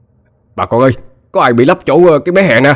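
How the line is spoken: Shouted. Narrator (Vietnamese): một người la lên

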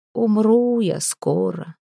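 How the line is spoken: Sudden dejected voice. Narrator (Russian): вдруг как-то уныло произнес Коста

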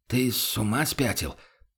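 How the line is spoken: Barely audible. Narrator (Russian): проговорил помощник чуть слышно

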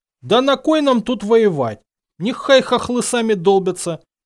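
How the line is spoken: Shout. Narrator (Russian): крикнули

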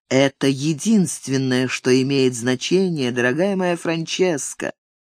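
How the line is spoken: Ingratiating, very tender. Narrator (Russian): Ник добавил самым вкрадчивым голосом и с величайшей нежностью

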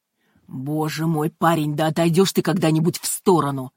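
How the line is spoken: Growling. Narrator (Russian): прорычал Брайант

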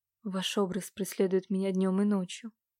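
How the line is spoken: Whisper. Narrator (Russian): прошептал Иван

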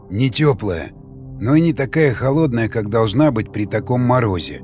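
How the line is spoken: Ogre's quiet reply. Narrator (Russian): тихо ответил людоед

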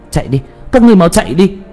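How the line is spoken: Loud urgent shout. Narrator (Vietnamese): Tuyết Kỳ hét lớn

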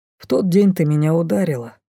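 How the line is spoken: Calm reminder. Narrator (Russian): спокойно напомнил Дефос

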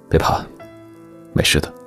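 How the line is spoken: Calm, steady. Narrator (Chinese): 声音又平又稳

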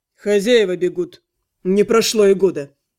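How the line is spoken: Weary. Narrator (Russian): Анхайлик устало сказал

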